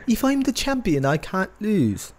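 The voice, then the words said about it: Weak attempt at English accent. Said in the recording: “I can't do an English accent. I apologize. ... I haven't heard that Neville Pac voice in a while. So give me until this weekend, and I'll do a better impression next week.”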